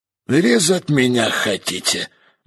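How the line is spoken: Gloomy, sick man asking. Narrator (Russian): мрачно поинтересовался больной

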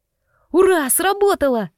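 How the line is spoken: Excited exclamation. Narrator (Russian): воскликнул Мишун

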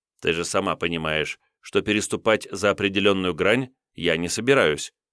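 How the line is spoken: Calm reply. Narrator (Russian): спокойно ответил я

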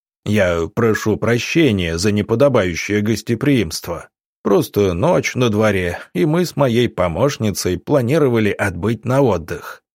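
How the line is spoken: Deep, friendly voice. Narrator (Russian): пробасил он, доброжелательно улыбнувшись

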